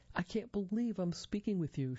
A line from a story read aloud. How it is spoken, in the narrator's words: exclaimed, weeping